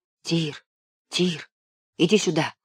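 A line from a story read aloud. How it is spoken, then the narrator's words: Whispered. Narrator (Russian): шепнул Левка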